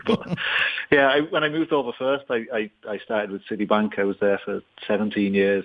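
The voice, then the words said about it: Leeds English accent, not Dublin. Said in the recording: “you probably picked the accent isn't too local to Dublin anyway. I'm originally from Leeds”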